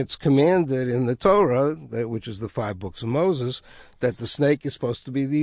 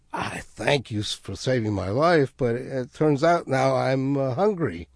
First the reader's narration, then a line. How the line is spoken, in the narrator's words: hissed out a laugh and said